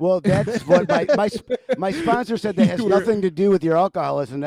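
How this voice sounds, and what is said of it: Usual voice. Nothing is said of it.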